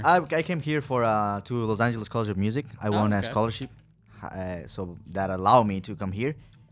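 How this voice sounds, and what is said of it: Ecuadorian Spanish-accented English. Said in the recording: “I'm from Ecuador, man... I speak English and Spanish. That's where my accent comes from.”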